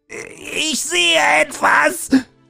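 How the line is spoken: Cried out. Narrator (German): schrie Siegundel auf

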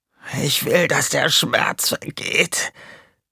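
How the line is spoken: Croaking. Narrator (German): krächzte er

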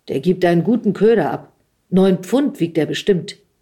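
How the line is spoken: Said loudly. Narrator (German): sagte laut

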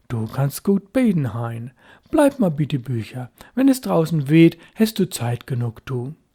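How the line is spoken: Father, approving. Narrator (German): sein Vater sagte anerkennend

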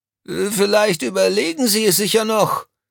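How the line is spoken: Little man calling after. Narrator (German): rief das Männlein ihnen hinterher

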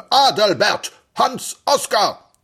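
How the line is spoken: Thundering male voice. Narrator (German): donnerte eine Männerstimme

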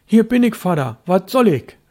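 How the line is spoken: Called out. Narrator (German): rief Störtebeker

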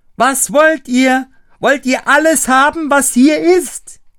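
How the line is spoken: Shouting again. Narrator (German): schrie von Neuem

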